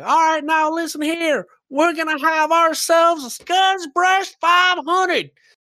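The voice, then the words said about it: Thick Southern South Carolina accent. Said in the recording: “he had a real thick accent. I can't mimic his accent, but it was this real thick Southern freaking like South Carolina accent”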